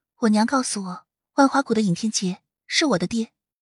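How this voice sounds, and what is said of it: Lowered, quiet voice. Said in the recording (Chinese): “降低声音，小声说”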